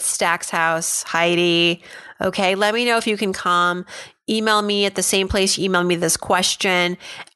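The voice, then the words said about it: Congested voice from a cold. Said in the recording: “I've got a little bit of a cold,”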